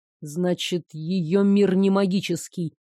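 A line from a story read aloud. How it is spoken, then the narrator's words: Mutter. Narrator (Russian): бормотал Хью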